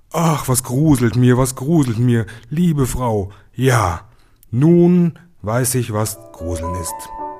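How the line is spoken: Calling out. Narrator (German): Da wachte er auf und rief

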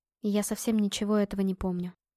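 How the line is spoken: Quiet. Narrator (Russian): тихо сказала я

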